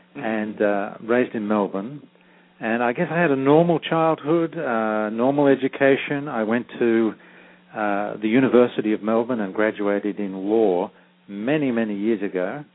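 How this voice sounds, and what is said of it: Australian accent. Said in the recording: “You can probably tell from my accent that I was born and raised in Australia. I still have my Australian accent.”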